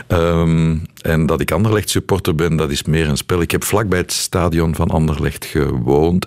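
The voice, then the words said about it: Strong Brussels Dutch accent. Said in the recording (Dutch): “trademark strong Brussels accent ... dat Brussels accent”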